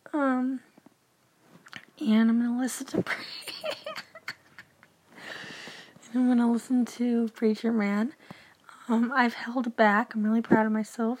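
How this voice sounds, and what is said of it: Hoarse, croaky just-woke-up voice. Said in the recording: “This is legit my voice right now... I just woke up. That's why my voice is gone.”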